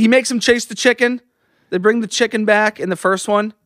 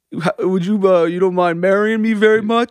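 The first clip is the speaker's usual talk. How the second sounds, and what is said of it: Impression of Rocky. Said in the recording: “Can you do an impression? ... Rocky.”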